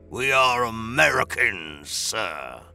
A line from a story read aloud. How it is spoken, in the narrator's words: Bosun snarled